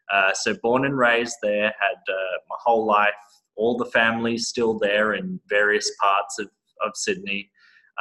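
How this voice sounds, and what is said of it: Australian accent. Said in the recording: “that's an Australian accent ... this is an Australian accent. I luckily have not lost it.”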